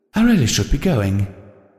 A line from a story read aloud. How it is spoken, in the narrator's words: Rarity said a little too hastily